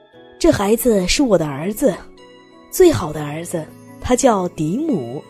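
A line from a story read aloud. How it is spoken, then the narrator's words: Loud. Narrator (Chinese): Johnny…大声的继续说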